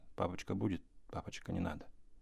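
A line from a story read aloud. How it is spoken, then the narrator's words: Embarrassed boys whispering. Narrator (Russian): братья Ани, Петя и Андрюша, гимназисты, шептали сконфуженно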